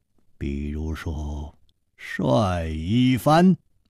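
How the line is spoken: Calm, flat. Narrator (Chinese): 楚留香淡淡地说

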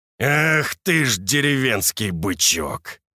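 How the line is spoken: Growl. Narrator (Russian): прорычал червонец

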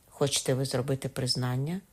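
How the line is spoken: Judge's calm question. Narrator (Ukrainian): спитав суддя тим самим спокійним голосом

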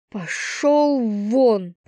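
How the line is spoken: Hostile hiss. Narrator (Russian): прошипела я, не желая его видеть

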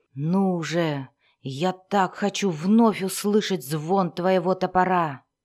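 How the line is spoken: Whisper. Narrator (Russian): прошептал Вульфгар

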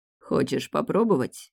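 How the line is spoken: Slightly hoarse, shiver-inducing voice. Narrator (Russian): Чуть хриплый голос, который царапает мурашками кожу

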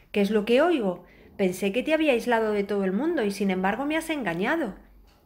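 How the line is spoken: Witch exclaiming. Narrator (Spanish): exclamó la bruja

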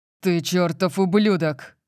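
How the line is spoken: Roaring. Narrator (Russian): проревел Лэнс

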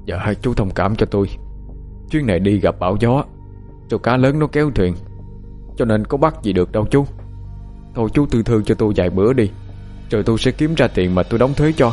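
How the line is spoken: Strained, laboured voice. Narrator (Vietnamese): nói bằng giọng khó nhọc

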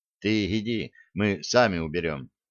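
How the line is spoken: Quiet. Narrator (Russian): тихо сказал Борман

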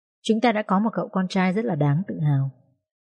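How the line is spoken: Smiling, tearful woman. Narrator (Vietnamese): Bà Giang mỉm cười, đôi mắt khẽ rưng rưng

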